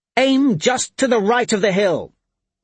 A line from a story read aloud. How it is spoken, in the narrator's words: she shouted over the cry of metal and men